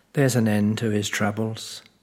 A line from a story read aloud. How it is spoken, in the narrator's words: sad Mother sighed